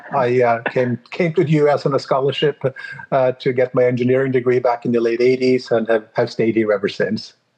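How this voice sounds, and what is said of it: Foreign accent, non-native English. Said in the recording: “You can probably hear from my accent that I'm not exactly born and raised here in Southern California.”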